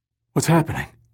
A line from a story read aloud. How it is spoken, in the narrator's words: Fowler gasped as he tried to comfort Sandy before staggering to the ground in distress